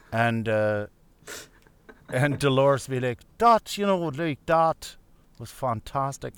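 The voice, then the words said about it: Terrible accent imitating another person. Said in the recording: “So there's another terrible accent.”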